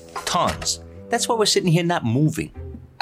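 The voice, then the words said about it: Sarcastic delivery. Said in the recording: “being sarcastic.”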